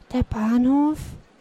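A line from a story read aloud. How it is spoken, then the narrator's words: Frightened whisper. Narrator (German): wiederholte flüsternd, während ihm ein eiskalter Schauer über den Rücken lief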